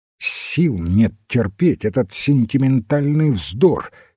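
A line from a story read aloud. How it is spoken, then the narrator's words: Angry interruption. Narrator (Russian): сердито оборвал его Уэйн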